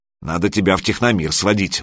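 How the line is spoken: Grumbled. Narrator (Russian): буркнула Алена

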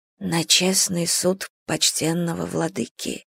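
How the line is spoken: Whisper. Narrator (Russian): прошептала Салли

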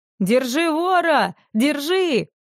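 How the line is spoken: Shouting. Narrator (Russian): закричал он

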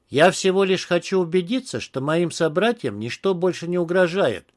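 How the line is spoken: Calm goblin explaining. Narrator (Russian): спокойно пояснил гоблин

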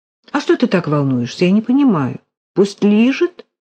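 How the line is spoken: Sudden calm. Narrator (Russian): вдруг сказала она спокойно

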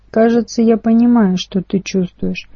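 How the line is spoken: Plain. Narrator (Russian): сказал

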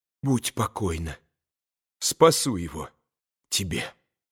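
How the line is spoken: Quick whisper. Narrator (Russian): быстро прошептала Катя

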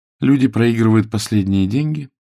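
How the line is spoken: Even young woman. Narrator (Russian): ровным голосом произнесла барышня

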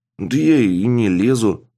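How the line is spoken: Wary grumbling, young woman. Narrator (Russian): пробурчала девушка, опасаясь получить подзатыльник

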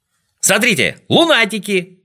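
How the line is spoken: Shouted. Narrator (Russian): закричал Тюбик

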